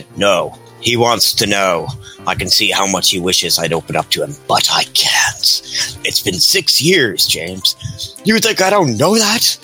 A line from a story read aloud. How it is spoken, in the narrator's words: Bucky snaps, sighing